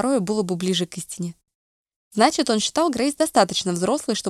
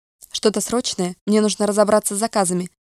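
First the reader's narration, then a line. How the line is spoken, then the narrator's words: Curt, clipped speech. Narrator (Russian): отрывисто сказала она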